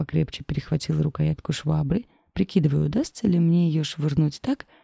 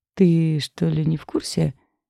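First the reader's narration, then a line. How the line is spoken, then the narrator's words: Purring. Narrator (Russian): промурлыкала Кара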